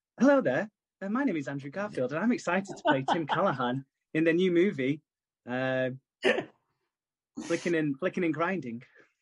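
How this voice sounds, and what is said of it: Posh kid accent. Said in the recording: “the little posh kid who has that accent in South Park”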